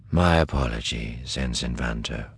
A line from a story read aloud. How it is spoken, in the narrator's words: Thrawn said quietly